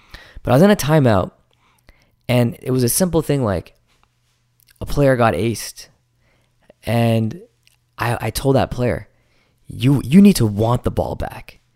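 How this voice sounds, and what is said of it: Scratchy, strained voice. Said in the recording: “my voice is kind of scrappy right now... I've been yelling all day”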